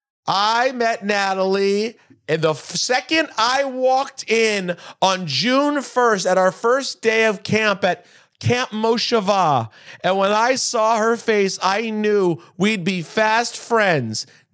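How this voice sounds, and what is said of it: Imitates a maid of honor speech. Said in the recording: “Let me just go right to my impression of the first lady, not first lady, but maid of honor speech.”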